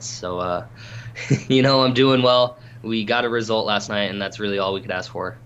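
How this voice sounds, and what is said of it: Slightly hoarse voice. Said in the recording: “my voice is is still a little hoarse from from screaming at my TV for 90 plus minutes”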